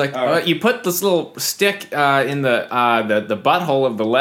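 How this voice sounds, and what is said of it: Usual voice. Nothing is said of it.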